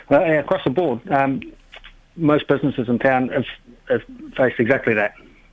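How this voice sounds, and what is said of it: New Zealand accent. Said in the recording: “am I hearing a New Zealand accent there?”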